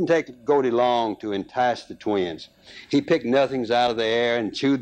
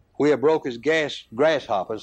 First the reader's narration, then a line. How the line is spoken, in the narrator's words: said